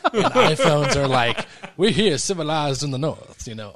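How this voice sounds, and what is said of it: Put-on Southern accent. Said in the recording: “that's not a northern accent ... we sound like we're from the south”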